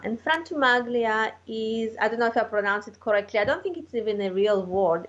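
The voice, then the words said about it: Non-native accented English. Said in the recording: “with my accent, I sometimes pronounce surnames and nobody have no idea what I'm saying”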